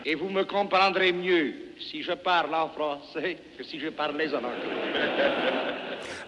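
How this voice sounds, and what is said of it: Southern French accent. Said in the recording (French): “retentir des échos de l'accent du midi”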